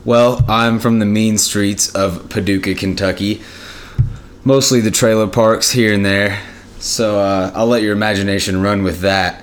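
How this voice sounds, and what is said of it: Western Kentucky accent. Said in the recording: “It's far western Kentucky, as you can probably tell by the accent.”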